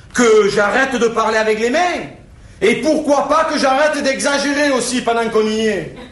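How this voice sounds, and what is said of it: Singing Marseille French accent. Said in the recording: “an example of the accent de Marseille, which is a very different, again, a sort of a singing accent”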